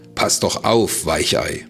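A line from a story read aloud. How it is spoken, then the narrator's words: Mocking shout. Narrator (German): rief er höhnisch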